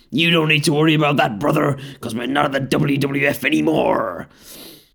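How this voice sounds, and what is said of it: Impression of the Hulkster. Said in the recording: “That was an impression of the Hulkster, not of Hulk Hogan”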